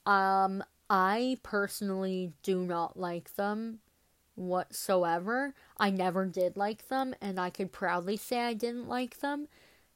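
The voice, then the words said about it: Congested, stuffy-nosed voice. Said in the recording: “my voice has been annoying this whole episode ... I'm still a bit sick. Like, my nose is still a bit stuffed up.”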